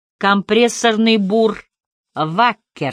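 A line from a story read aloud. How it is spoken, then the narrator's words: Plain. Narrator (Russian): сказал Харри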